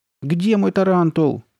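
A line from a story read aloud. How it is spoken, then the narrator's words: Shouting. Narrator (Russian): кричал он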